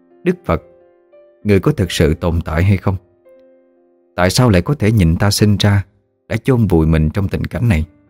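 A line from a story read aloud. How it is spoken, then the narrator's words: Sighing. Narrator (Vietnamese): Minh Khánh sau đó thở dài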